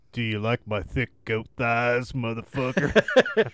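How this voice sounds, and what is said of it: Deep put-on character voice. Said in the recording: “a deep voice says”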